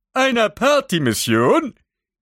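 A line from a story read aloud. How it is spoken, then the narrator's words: Calling from another room. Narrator (German): rief Daedalus aus der Küche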